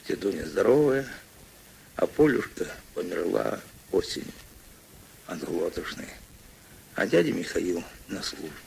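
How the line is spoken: Quiet answer. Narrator (Russian): Мишатка тихо ответил

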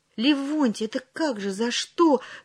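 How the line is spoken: Trembling voice, slight man. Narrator (Russian): дрогнувшим голосом начал было щупленький

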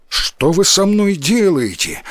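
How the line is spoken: Frightened shout. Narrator (Russian): испуганно закричал возчик

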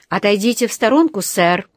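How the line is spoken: Stern command. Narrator (Russian): строго приказал ему один из полицейских

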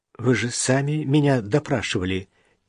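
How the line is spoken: Quiet reminder. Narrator (Russian): тихо напомнила Даша

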